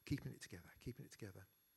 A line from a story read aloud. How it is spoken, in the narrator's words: say quietly to herself